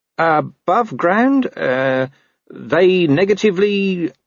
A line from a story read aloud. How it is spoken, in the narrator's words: he faltered